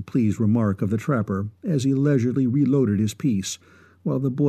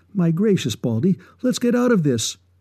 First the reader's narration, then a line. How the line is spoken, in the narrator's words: he instantly pleaded